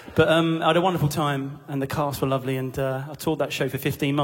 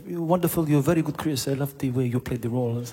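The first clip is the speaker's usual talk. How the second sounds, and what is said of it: Terrible French accent impression. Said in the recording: “He was French, by the way. Yeah, it's my terrible French impression.”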